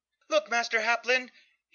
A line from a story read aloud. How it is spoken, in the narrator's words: he shouted in a near falsetto